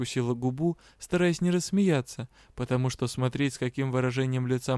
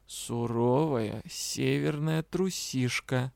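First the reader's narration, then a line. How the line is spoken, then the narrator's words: Mocking drawl. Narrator (Russian): откровенно издеваясь, протянул Риан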